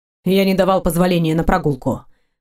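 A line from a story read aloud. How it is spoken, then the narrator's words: Gloomy curt. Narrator (Russian): мрачно бросил мужчина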